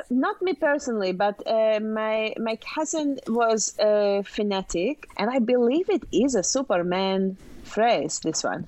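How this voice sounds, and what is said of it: Non-native accent speaking English. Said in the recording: “I tell you that accent with the word fanatic is pretty stressful. ... English is a tough language.”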